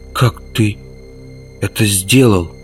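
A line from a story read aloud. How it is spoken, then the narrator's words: Muffled question. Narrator (Russian): глухо спросила Мета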